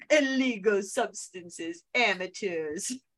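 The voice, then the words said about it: Attempted Moira Rose accent impression. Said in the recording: “I can't do her accent justice, but I keep trying to do it because I can't say a Moira ... I can't not try to say it in their voices”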